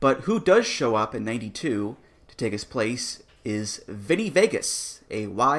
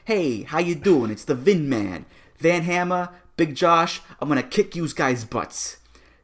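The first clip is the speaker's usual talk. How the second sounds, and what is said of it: Put-on Goomba Italian-American accent. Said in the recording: “he talks like this ... Just a just a pitch perfect Goomba accent there”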